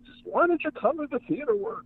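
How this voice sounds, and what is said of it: Bad Larry Cohen impression. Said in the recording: “my bad Larry Cohen impersonation”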